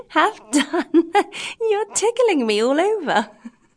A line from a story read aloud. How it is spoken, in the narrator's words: the same little voice say, laughing